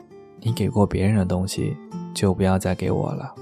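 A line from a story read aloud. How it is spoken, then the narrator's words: Flat, indifferent. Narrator (Chinese): 淡淡的说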